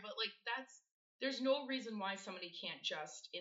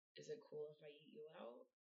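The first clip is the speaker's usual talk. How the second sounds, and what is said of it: Sexy, seductive voice. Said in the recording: “in their sexy voice”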